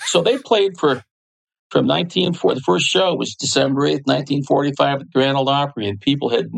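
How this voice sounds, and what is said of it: Usual voice. Nothing is said of it.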